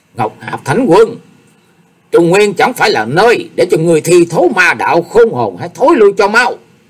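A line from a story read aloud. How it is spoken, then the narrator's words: Thunderous roar. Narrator (Vietnamese): gầm vang lên bầu trời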